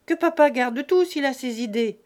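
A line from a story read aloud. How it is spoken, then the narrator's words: Curt, touchy interruption. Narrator (French): interrompit sèchement Fanny, très susceptible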